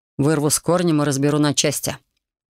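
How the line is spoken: Dragon's grim promise. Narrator (Russian): мрачно пообещал дракон

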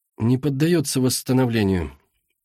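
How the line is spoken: Sad statement. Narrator (Russian): грустно констатировал он

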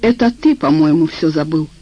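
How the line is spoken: Cold. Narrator (Russian): холодно сказал

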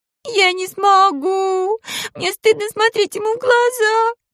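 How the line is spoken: Sobbing. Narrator (Russian): вампирка снова зарыдала

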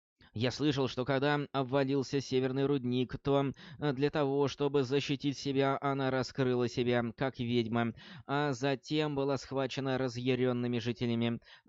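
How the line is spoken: Plain. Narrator (Russian): ответил Баров

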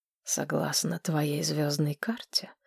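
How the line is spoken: King whispering. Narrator (Russian): прошептал король

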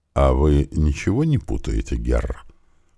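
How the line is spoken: Ingratiating question. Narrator (Russian): вкрадчиво спросил

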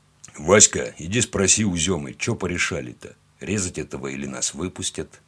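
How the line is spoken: Deep bass voice. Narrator (Russian): пробасил Пахомыч

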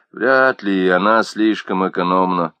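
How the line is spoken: Grumbling mutter. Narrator (Russian): пробурчал он

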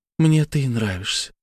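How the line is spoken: Quiet. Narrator (Russian): сказала она тихо

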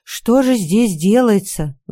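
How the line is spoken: Sighing. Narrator (Russian): вздохнула она

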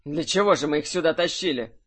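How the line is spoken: Snorted. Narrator (Russian): фыркнул Кирсан

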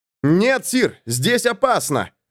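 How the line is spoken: Shouted. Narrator (Russian): закричал им Ланс

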